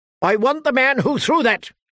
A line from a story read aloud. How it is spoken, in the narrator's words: he shouted